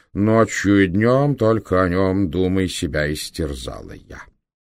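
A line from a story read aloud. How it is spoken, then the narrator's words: Loud heartfelt singing. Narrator (Russian): где унылая мелодия вдруг оживает и заряжается адреналином, пропел громко, с чувством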